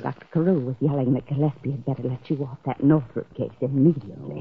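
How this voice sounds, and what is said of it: Whispering. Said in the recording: “What's all the whispering for?”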